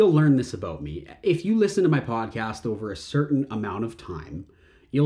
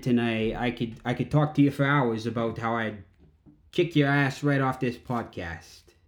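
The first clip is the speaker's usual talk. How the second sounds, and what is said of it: Put-on New York accent. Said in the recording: “I transform into this New York style accent”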